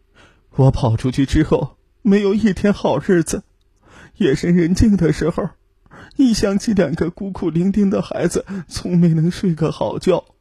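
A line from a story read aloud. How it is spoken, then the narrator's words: Weeping bitterly. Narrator (Chinese): 一个妇女痛哭流涕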